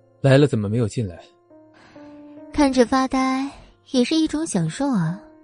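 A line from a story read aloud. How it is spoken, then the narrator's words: Faint smile, unsurprised. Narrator (Chinese): 他没有很惊讶，只是淡淡笑着说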